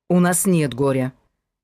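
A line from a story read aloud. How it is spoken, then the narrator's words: Sharp correction. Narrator (Russian): резко поправил он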